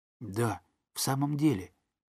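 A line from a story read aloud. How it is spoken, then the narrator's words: Whisper. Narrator (Russian): прошептал Том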